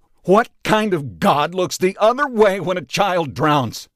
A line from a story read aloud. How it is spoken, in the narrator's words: yelled